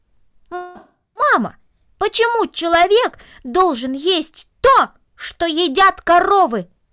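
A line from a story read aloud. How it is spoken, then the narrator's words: Loud, raised voice. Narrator (Russian): Повысив голос, громко повторил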